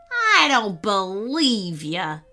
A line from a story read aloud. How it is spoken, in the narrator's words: sneered the robber